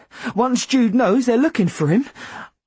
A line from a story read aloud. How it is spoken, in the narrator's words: I said frantically